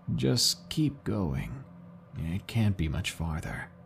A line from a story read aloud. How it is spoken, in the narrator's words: he said in a quiet, raspier voice